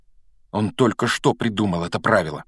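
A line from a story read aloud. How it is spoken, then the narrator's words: Angry mutter. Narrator (Russian): сердито пробормотал Гарри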